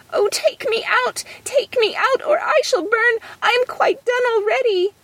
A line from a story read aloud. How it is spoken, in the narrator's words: the bread cried out